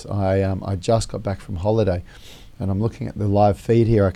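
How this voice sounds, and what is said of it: Hoarse, strained voice. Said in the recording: “You can hear I've actually lost my voice ... unfortunately I've lost my voice”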